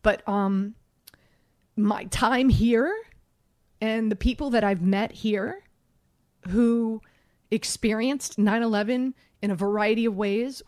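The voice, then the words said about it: Emotional, choked-up voice. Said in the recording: “getting emotional.”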